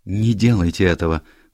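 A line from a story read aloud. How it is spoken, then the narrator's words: Breathless widow. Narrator (Russian): выдохнула вдова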